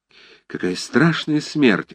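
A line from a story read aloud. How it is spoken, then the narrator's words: Sighed. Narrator (Russian): вздохнул Бутон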